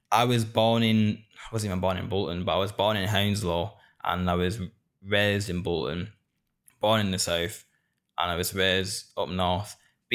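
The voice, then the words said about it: Northern English accent. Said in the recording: “Being a northerner in England ... Listen to how I talk. Listen to this awful accent I've got.”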